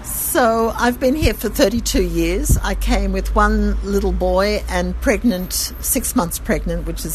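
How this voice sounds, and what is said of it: Australian accent. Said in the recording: “Your accent is not Israeli, obviously. It's Australian.”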